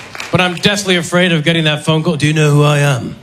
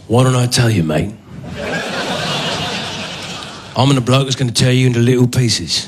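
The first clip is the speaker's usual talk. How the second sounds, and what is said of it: British action-hero movie voice. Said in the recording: “doing the voice of a great action hero, British actor”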